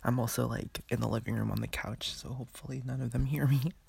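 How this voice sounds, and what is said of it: Whispering. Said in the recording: “sorry if I'm whispering”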